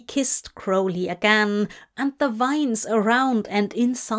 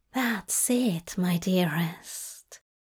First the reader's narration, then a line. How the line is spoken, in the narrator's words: Zira whispered